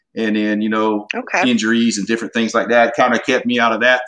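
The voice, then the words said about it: Southern US accent, slight drawl. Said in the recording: “I got a little bit of an accent too sometimes... you sound like you're from Louisiana too... I got a good Southern accent, but it's definitely not a Texas accent,... but I got a little Southern draw here and there”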